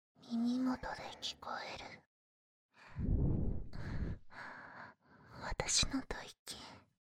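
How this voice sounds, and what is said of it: Whispering voice. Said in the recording (Japanese): “ささやき声と”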